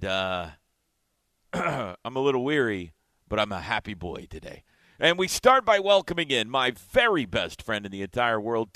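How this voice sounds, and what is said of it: Strained, struggling voice. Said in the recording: “My voice is struggling a little bit today.”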